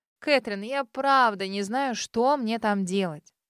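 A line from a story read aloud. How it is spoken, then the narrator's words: Resigned moan. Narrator (Russian): обреченно простонала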